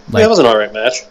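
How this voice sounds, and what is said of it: Sarcastic tone. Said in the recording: “I can't tell if you're being sarcastic. ... Yes, I'm being sarcastic.”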